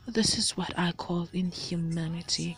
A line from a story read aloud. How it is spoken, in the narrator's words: he sighed